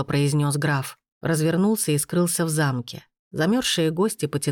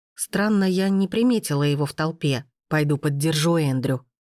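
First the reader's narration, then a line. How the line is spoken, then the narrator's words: Plain, grandmother. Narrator (Russian): сказала бабушка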